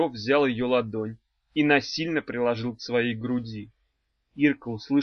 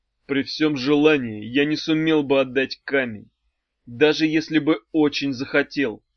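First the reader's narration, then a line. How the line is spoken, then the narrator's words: Plain. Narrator (Russian): сказал Матвей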